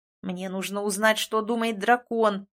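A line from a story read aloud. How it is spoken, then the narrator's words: Growling grumble. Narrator (Russian): проворчал, рыча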